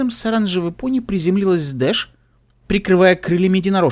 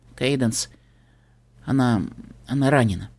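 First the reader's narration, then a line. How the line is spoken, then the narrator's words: Quiet speech. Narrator (Russian): тихо проговорила Твайлайт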